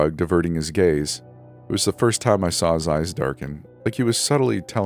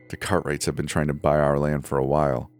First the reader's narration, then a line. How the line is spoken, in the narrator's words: he muttered